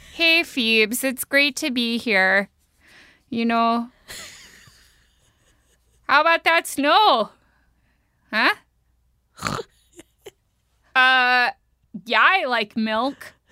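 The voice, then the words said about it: Exaggerated Minnesotan accent. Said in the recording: “I can do a more intense Minnesotan accent. ... That was spot on.”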